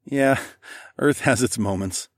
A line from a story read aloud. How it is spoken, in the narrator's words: I chuckled